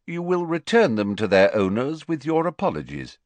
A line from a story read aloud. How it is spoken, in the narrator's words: said Dumbledore calmly